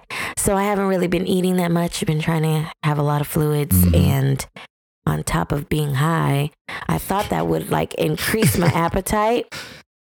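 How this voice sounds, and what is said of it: Sick-sounding voice. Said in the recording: “I am sick... I'm pretty sure you can hear it in my voice”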